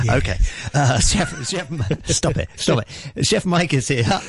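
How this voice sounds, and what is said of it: Usual voice. Nothing is said of it.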